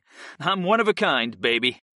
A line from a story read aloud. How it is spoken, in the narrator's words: I said with a cocky smirk, my over-the-top inflection